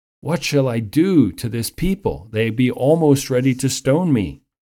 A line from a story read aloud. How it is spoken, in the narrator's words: And Moses cried unto the Lord